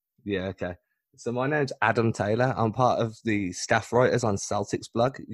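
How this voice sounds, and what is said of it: English accent. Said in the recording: “say your name a little bit slower so people can hear you through your accent? ... We all hear it. ... Obviously, I'm not American. ... The Brit. ... I'm English.”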